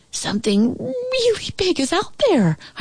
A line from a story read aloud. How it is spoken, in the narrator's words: squealed